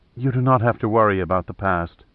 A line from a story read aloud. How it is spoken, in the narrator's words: said softly